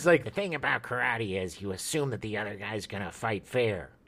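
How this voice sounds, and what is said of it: Poor impression of a TV detective. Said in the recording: “A horrible Rockford impersonation”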